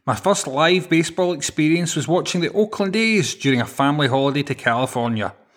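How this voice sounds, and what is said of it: Glasgow Scottish accent. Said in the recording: “as you can probably tell from the accent, I'm a Glasgow lad”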